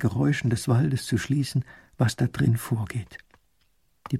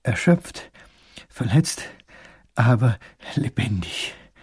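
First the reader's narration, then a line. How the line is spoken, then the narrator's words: Panting. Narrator (German): keucht der kleine Großherzog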